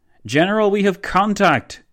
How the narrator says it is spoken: boomed one of von Leto Vorbeck's forward soldiers

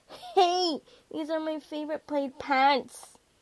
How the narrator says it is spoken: Sean cried

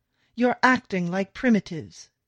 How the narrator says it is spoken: Theodore shouts

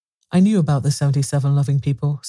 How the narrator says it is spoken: said Elphin

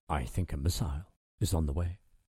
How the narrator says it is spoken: the navigating officer, Ian Inskip, said quietly

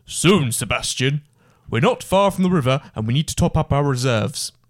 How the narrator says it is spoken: Grogan responded in a deep voice

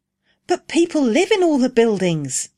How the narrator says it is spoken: exclaimed Rose

